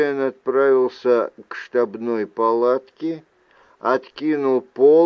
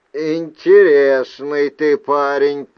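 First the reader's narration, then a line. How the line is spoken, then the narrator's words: Grumbling. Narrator (Russian): проворчал Джулиан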